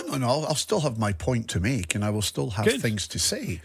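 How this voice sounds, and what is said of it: Croaky, hoarse voice. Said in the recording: “my voice is a bit croaky today”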